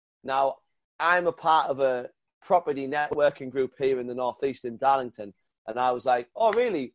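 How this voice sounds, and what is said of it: Northern English accent. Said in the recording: “he heard my northern accent”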